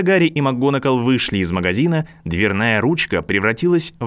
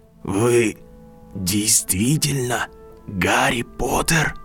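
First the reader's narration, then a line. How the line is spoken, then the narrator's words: Whisper, elderly man. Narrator (Russian): прошептал пожилой человек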